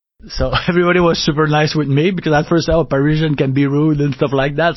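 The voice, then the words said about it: French Canadian accent. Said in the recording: “his accent, working as a French Canadian in Paris”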